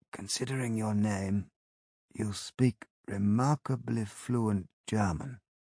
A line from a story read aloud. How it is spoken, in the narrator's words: I croaked